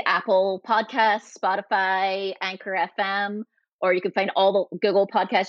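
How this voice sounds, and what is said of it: Mixed Scottish and Californian accent. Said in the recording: “this combination of a Scottish and Californian accent”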